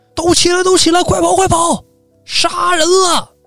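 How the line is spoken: Shouting. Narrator (Chinese): 李来文大喊

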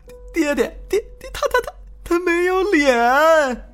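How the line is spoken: Crying while speaking. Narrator (Chinese): 张子美哇的一声就哭了，边哭边说

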